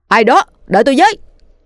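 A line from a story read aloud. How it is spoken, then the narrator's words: Shouted loudly while chasing. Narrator (Vietnamese): Anh vội vã vừa đuổi theo vừa hét lớn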